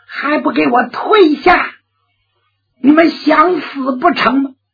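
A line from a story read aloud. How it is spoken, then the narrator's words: Loud shout. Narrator (Chinese): 花正芳高声喊喝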